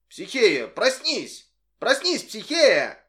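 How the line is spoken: Loud shout. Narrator (Russian): Громко закричал

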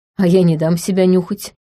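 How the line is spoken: Snorting. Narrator (Russian): хмыкнул Эрик

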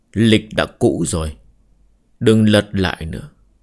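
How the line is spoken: Man, smiling. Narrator (Vietnamese): Nam nhân mỉm cười nói

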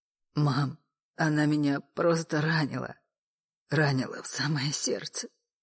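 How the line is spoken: Exhausted breathy voice. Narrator (Russian): выдохнул Саша, подняв на мать измученные глаза

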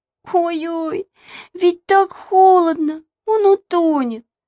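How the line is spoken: Whimpering. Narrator (Russian): захныкала Маша

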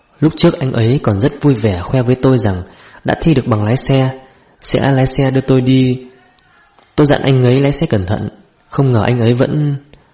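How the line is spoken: Soft, sobbing. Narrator (Vietnamese): Cổ Lan nức nở nói khẽ

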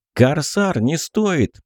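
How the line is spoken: Shout. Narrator (Russian): Крикнул я

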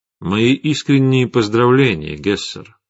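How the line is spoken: Plain. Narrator (Russian): сказал Витислав

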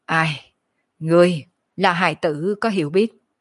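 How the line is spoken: Calm, leisurely sigh. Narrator (Vietnamese): Kiếp nạn thần hồn ung dung thở dài

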